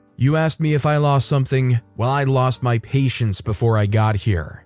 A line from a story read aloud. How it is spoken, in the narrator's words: I replied to her coldly